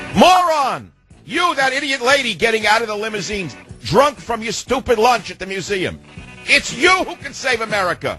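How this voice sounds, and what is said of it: Yelling angrily. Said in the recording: “Why am I yelling?”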